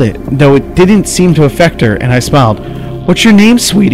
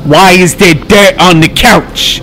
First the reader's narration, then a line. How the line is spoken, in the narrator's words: She shouted